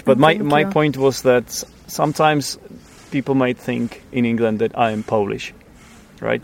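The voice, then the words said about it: Czech accent in English. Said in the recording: “as a Czech person ... my accent ... the accent that I have sounds similar to a Polish version of English accent”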